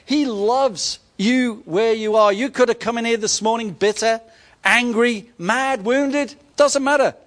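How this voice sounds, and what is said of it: English accent. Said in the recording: “a pommy accent”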